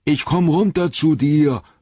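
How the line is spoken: Roar. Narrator (German): brüllte Sam

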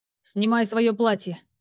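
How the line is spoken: Sudden barking man. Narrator (Russian): Неожиданно рявкнул на меня мужчина

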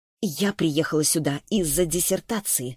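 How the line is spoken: Through gritted teeth. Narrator (Russian): сквозь зубы пояснила Саша

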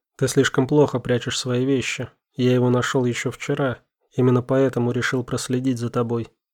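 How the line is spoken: Plain. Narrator (Russian): ответил Стас

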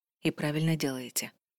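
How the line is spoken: Soft. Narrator (Russian): мягко произнес Альвар

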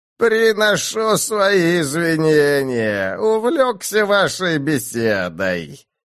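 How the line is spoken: Creaky monster voice. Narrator (Russian): проскрипел вдруг рукотворный монстр

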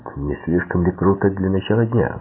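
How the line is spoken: Calm retort. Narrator (Russian): спокойно парировал Куэрелл

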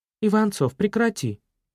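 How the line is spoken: Two voices exclaiming. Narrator (Russian): воскликнули Аня с Леной

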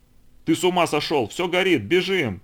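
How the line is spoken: Shouted. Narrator (Russian): закричал помощник начальника радиостанции

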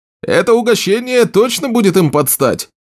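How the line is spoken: Shouted. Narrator (Russian): крикнул кто-то из команды

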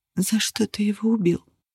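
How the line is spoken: Whisper. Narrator (Russian): шепнула она Нигеру

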